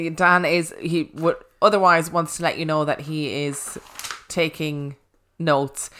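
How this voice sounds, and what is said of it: Usual voice. Nothing is said of it.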